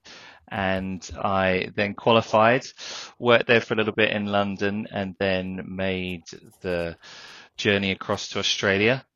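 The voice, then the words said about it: British accent. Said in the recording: “I studied architecture in the UK, hence the accent.”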